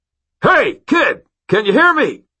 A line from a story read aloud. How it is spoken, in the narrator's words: I cupped my hands over my mouth and shouted